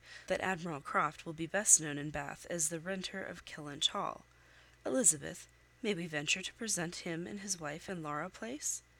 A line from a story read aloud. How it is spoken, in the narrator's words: said Sir Walter coolly